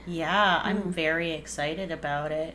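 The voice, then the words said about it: Flat monotone delivery. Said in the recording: “You sound very excited about it. ... I don't know why I'm so monotone right now.”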